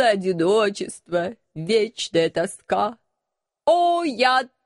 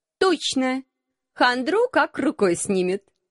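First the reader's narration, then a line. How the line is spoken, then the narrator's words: Forced cheerfulness. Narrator (Russian): Нарочито бодро поддержала я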